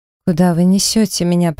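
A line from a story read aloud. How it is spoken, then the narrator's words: Weak moan. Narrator (Russian): простонала слабым голоском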